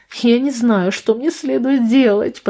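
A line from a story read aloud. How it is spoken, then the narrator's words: Groaning. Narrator (Russian): простонала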